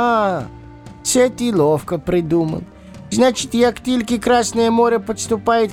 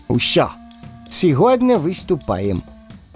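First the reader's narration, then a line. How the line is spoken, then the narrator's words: Sharp. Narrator (Russian): резко произнес Лис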